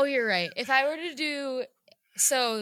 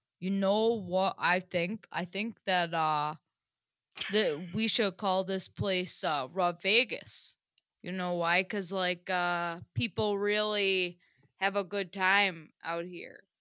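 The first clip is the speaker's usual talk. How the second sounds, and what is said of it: Put-on Vermont accent. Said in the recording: “Vermont accent, by the way... this is what it would sound like if it was a Vermonter”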